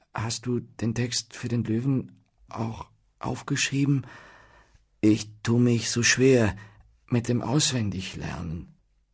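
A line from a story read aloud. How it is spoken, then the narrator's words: Hesitant question. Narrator (German): Dieser fragte zögernd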